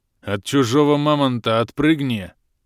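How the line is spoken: Booming half-orc voice. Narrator (Russian): прогудел забравшийся на Колывана полуорк Бом

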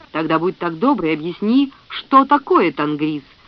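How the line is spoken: Yelling. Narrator (Russian): заорал Грегор

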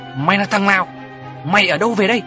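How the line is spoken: Grandmother shouting. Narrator (Vietnamese): bà tôi quát

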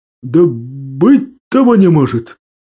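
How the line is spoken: Mumbling. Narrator (Russian): Промямлил

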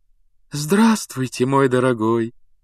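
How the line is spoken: Cooing female voice. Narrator (Russian): проворковала она

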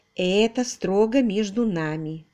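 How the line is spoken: Calm continuation. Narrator (Russian): спокойно продолжила она

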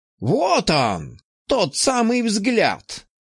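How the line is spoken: Wild, exultant exclamation. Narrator (Russian): воскликнул Фурманов, и в его глазах вспыхнуло что-то дикое, почти ликующее

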